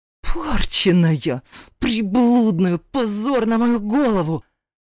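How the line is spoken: Spluttering shriek, hateful hiss. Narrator (Russian): брызгая слюной, заверещал отчим и, прищурившись, процедил с нескрываемой ненавистью

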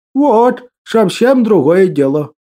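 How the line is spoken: Old man's pleased hum. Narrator (Russian): Довольно прогудел старичок-лесовичок

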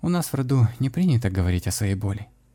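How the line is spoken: Said quietly, young woman. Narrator (Russian): все так же тихо сказала девушка

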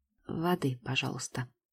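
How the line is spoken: Quiet, secretive. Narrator (Russian): произношу тихо, чтобы Гордеев меня не услышал

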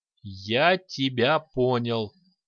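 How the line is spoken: Slow drawl. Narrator (Russian): медленно протянул Лить

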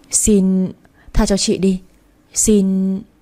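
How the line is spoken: Frightened stammering plea. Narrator (Vietnamese): Chị Hồng nhìn tôi với ánh mắt sợ hãi rồi chị lắp bắp cầu xin

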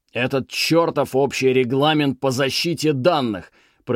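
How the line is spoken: Roaring. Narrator (Russian): проревел Беллос

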